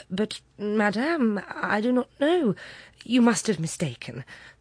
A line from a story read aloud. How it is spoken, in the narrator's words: astonished to be familiarly addressed by this plain good wife, stammered